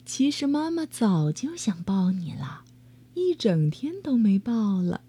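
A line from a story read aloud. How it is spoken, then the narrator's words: Soft, tender. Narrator (Chinese): 妈妈 轻声说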